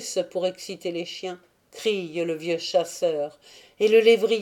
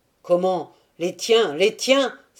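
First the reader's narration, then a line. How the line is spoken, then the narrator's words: Exclaimed. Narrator (French): s'écrie-t-il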